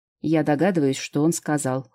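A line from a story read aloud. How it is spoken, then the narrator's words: Cold. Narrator (Russian): холодно сказал Андерс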